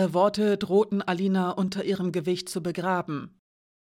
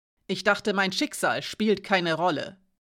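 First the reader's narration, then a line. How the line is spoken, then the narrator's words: Hoarse rough voice. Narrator (German): sagte sie rau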